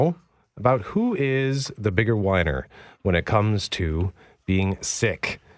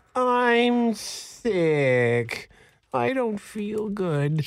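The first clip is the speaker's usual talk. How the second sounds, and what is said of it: Whiny imitation of another person's voice. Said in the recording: “that impression”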